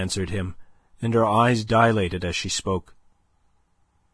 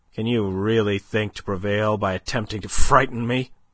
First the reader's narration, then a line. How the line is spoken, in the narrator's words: he asked, almost sneered